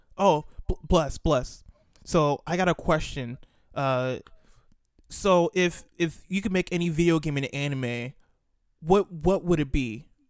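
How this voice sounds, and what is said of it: Imitates another person's voice. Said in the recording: “my Ian impression ... spot on. It's not like a bad impression.”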